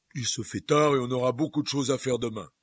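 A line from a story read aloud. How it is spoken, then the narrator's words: Loud voice. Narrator (French): dit Hagrid d'une voix forte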